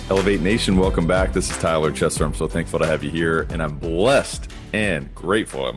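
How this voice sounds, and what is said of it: Loud, yelling into the microphone. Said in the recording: “I'm yelling into the microphone. I'm screwing up the audio”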